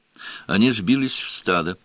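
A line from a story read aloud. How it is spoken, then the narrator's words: Plain. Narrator (Russian): сказала она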